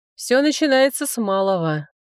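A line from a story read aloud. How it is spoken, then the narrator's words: Weary. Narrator (Russian): устало сказал генерал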